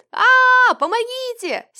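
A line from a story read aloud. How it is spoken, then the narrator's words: Screaming in terror. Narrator (Russian): Сенька заорал, как резанный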